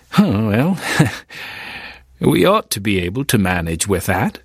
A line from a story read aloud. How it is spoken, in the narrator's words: CT laughed